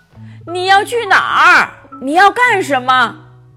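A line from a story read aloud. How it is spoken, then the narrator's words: Calling out from rooftop. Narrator (Chinese): 圣诞老人从房顶上冲着狼叫道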